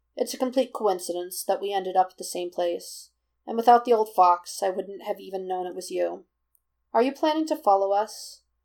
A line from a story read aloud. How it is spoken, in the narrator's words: Naruto wants to know, and though his voice sounds deceptively even, there's just a tiny hitch